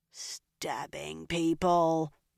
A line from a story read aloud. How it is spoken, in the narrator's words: Nynaeve growled